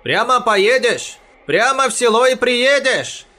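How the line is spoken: Shouted. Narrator (Russian): крикнул Бахтияр

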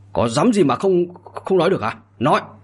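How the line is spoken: Angry shout. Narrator (Vietnamese): Đới Bát Gia giận dữ mà quát

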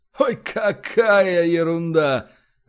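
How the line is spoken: Laughing. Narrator (Russian): рассмеялся начальник

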